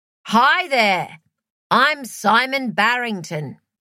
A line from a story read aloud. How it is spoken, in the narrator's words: he said in a loud, showy voice completely unlike his own